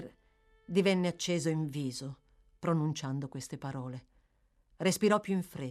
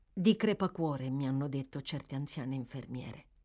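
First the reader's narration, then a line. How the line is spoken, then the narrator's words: Murmuring to himself. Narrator (Italian): mormorò Oliver, ma più come se stesse parlando tra sé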